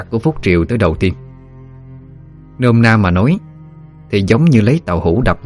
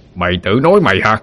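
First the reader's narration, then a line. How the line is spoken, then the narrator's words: Roaring back. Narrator (Vietnamese): Quan lửa gầm lại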